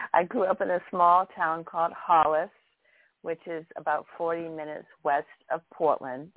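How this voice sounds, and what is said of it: Maine New England accent. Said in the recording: “So I'm from Maine, and as we talk along, you will be able to hear my accent. It's never really disappeared.”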